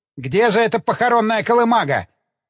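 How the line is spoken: Curt question. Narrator (Russian): отрывисто спросил Эванс

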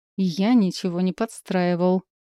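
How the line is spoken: Through gritted teeth. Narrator (Russian): процедила Эш сквозь зубы

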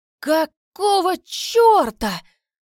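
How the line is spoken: Yelled. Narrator (Russian): Заорал

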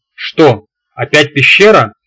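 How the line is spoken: Indignant impatient outburst. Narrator (Russian): возмущенно выпалил Рикар, с трудом дослушав меня до конца

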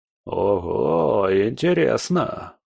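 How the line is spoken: Drawn-out drawl. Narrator (Russian): протянул Потемкин

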